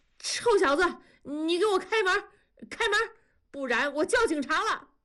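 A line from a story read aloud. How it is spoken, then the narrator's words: Shouting. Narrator (Chinese): 大庄也跟着敲门喊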